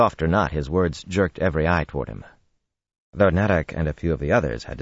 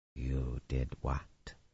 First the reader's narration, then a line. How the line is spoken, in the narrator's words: Kareed said softly